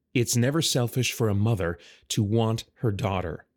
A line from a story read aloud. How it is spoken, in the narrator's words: Rildon said